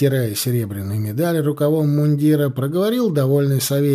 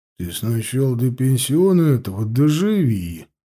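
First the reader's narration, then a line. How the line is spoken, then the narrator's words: Grumbling. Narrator (Russian): проворчал Устим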